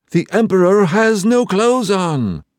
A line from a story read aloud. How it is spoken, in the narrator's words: all the people were shouting